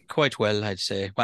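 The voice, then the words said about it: Put-on Irish accent. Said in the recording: “I said that in an Irish accent ... I have an Irish lilt”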